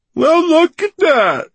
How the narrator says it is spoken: he mocked her

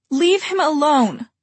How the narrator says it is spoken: Emma shouted

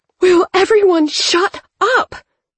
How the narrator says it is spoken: Thea yelled

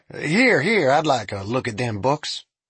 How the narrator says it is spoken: An elderly man seated at the bar called out

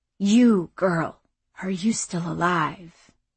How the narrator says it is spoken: The voice repeated in a dry rasp

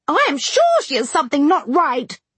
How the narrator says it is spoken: they cried, one and all

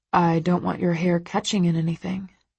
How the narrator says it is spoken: he says quietly

